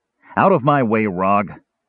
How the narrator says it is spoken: Caramon growled, completely forgetting in his anxiety where he was

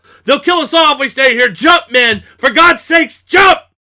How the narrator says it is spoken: Murph yell

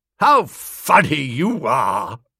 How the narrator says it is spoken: She chucked back her head and laughed with considerable vim

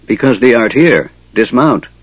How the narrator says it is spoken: the centaur ordered gruffly

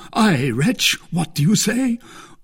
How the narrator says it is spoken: cried D'Artagnan

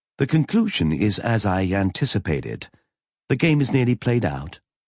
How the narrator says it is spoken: Roberta said evenly

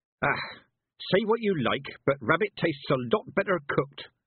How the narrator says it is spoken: she gasped

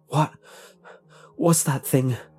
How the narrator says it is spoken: asked between gasps

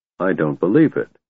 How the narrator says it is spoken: muttered

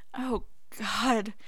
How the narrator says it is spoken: Harry pants

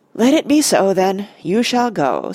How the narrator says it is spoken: said Elrond, and he sighed

